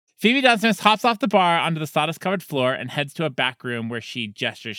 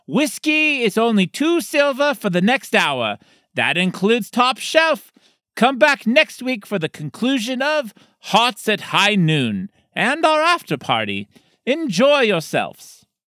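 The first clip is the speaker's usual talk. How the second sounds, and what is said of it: Loud character voice, female dwarf. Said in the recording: “A female dwarf stands on top of the bar, addressing the patrons in a loud voice.”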